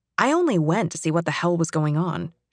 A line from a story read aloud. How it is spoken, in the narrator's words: she says